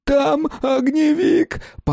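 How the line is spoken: Womanish wail. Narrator (Russian): По бабье взвыл незнакомец

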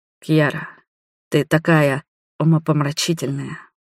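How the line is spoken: Heated whisper. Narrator (Russian): разгоряченно прошептал он

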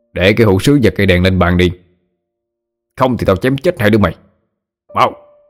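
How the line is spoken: Threatening bark. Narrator (Vietnamese): Một người trong số đó quát

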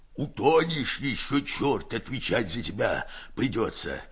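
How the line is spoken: Hoarse rasping. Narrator (Russian): хрипит Герасим

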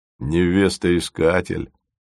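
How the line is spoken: Incredulous snort. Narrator (Russian): недоверчиво хмыкнул Фомин

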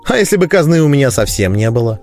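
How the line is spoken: Snide, exasperated question. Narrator (Russian): не выдержав цинизма Гонды, ехидно поинтересовался я

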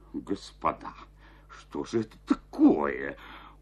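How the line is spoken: Stunned mutter. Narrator (Russian): пробормотал Жестяков, обомлев

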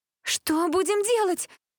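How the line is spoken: Shouted. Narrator (Russian): прокричала Джессика

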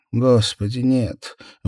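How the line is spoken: Forced, strained utterance. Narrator (Russian): выдавила из себя Мор

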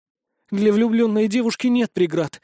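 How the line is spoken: Exclaiming. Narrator (Russian): воскликнула Дамила

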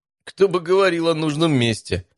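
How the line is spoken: Laughing. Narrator (Russian): снова рассмеялся Матвей

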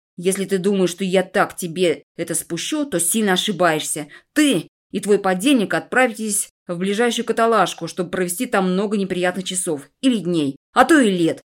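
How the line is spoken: Hissed. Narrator (Russian): Прошипел он

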